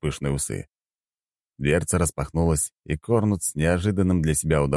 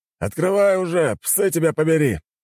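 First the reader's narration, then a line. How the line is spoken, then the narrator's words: Bark. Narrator (Russian): рявкнул он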